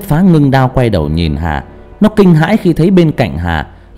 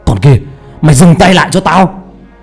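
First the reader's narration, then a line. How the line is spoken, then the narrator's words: Shouting. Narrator (Vietnamese): Hà hét lên một tiếng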